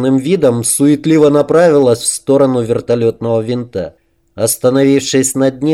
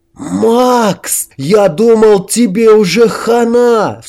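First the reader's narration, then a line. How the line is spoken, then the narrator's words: Sharp exclamation. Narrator (Russian): вскрикнул Хорек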